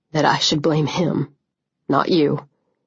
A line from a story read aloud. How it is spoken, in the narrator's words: he said, his voice hoarse